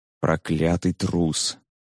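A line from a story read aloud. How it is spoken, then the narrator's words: Barely audible lament. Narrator (Russian): еле слышно причитал он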